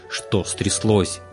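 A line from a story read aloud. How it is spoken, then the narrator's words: Angry mimicking. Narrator (Russian): перекривил он зло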